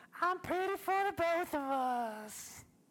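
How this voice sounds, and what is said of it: Exaggerated French accent. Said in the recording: “I'll do it better... That's super French right there... That's some Versailles Frenchness right there.”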